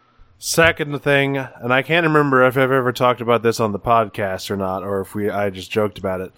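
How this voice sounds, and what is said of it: Congested, nasal voice. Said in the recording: “sorry about my voice. I have a slight sinus infection. So I'm going to be sounding a little, you know, a little dulcet today.”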